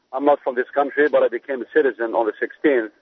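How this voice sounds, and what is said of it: North African Algerian accent. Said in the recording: “I have an accent ... I came from North Africa, Algeria”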